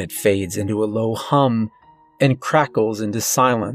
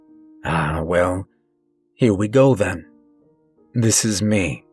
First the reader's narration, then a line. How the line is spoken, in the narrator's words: the old man says